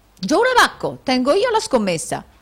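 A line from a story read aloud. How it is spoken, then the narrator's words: Foolish nobleman exclaiming. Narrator (Italian): esclamò il nobile allocco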